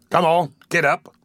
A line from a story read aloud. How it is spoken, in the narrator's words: said the man roughly